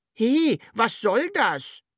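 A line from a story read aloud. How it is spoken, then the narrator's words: Calling upward. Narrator (German): rief das Sams zur Wunschmaschine hoch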